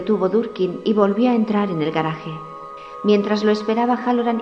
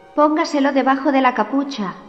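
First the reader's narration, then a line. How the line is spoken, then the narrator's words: Shouting. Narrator (Spanish): le gritó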